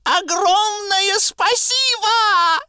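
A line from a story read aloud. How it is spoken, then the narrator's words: Animal shouting. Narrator (Russian): крикнуло животное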